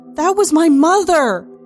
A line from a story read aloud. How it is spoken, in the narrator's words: I yell